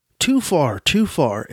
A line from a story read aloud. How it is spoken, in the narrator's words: exclaimed the goodman